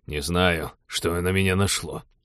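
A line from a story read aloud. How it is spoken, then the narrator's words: Dejected voice. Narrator (Russian): упавшим голосом повторил Теодор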